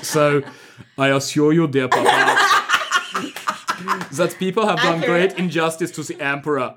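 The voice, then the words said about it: Arnold Schwarzenegger-style Austrian accent. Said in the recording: “the only Austrian accent I know is Arnold Schwarzenegger's”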